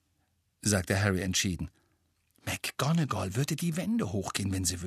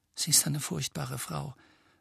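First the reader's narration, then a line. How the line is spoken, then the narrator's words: Quiet. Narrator (German): sagte Hermine mit leiser Stimme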